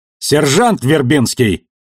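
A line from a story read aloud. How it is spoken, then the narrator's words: Barked woman's voice. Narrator (Russian): рявкнул женский голос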